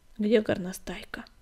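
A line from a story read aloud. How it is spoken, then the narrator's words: Plain question. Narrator (Russian): спросил Бурый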